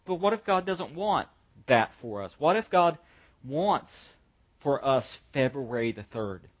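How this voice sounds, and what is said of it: Southern American accent. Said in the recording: “I'm from the South. You can't breed that out of a person. I'm stuck. It's as stuck to me as my accent.”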